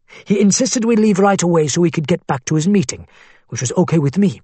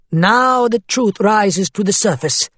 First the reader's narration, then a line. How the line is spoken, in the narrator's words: Nizar said in a mocking tone